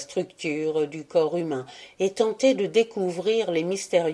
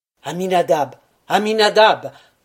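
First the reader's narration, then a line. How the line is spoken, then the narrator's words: Angry shout, stamping foot. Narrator (French): cria-t-il en frappant du pied avec violence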